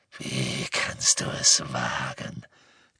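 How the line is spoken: Growled. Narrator (German): knurrte er

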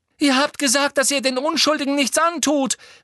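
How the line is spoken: Called out, crying. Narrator (German): rief Hermine, und nun rannen ihr tatsächlich Tränen übers Gesicht

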